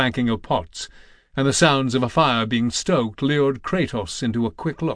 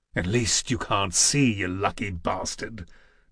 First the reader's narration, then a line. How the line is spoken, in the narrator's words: Jur snarled back just as softly